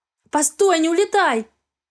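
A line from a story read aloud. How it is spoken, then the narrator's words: Shouted. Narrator (Russian): крикнула я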